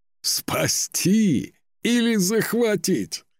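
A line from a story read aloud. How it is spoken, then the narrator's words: Laughing old warrior. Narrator (Russian): рассмеялся старый воин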